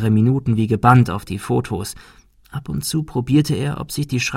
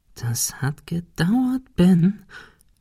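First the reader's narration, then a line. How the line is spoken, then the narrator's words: Whispering to himself. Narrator (German): flüsterte er sich selbst zu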